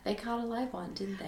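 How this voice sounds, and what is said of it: Poor British Cockney accent attempt. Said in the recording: “What accent was that from? ... I was going for British. ... a little bit of Cockney. ... No, it's not good.”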